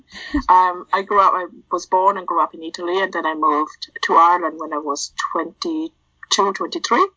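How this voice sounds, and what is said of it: Hybrid Italian and Irish accent. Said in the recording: “what you can hear from my accent is a hybrid of everything”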